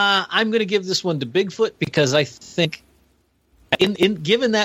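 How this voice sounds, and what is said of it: Usual voice. Nothing is said of it.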